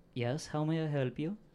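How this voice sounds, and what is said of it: Put-on character accent. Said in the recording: “it's this same accent as the person from last week ... Slightly different.”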